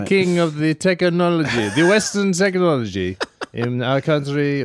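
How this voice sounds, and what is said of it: Put-on Middle Eastern accent, Borat-like. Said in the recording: “They sound a lot like... Borat... I can't do accents... it's just an accent”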